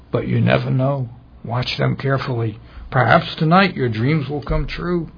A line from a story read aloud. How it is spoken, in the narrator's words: whispered